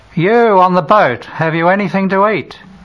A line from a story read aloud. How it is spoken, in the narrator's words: shouts a man's voice from the shore